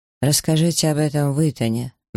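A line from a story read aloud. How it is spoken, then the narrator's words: Gloomy. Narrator (Russian): мрачно откликнулся он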